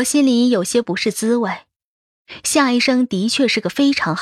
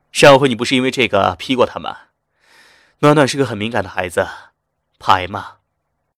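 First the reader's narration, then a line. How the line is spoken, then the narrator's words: Hearty laughter. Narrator (Chinese): 夏医生哈哈笑着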